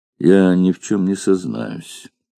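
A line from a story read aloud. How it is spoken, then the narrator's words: Grim, threatening. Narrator (Russian): произнес мрачно и угрожающе вольноотпущенник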